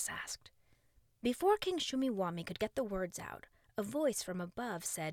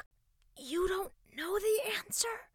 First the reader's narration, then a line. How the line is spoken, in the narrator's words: He whispered to King Shumiwami